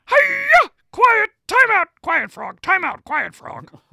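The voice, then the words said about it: Miss Piggy character voice. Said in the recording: “Miss Piggy would crush doing an impersonation of Coach Ham. ... I've never heard your Miss Piggy.”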